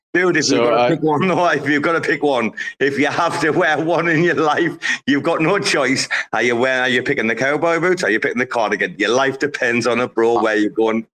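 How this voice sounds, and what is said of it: Strong regional English accent. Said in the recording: “It might be my accent. ... am I talking like a pikey ... you talking are... like a pikey, but we understand you”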